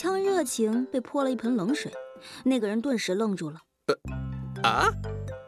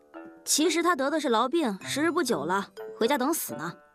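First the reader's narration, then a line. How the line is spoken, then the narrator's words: Coldly interrupting. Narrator (Chinese): 郁闷的夜莺冷冷地打断那个人的话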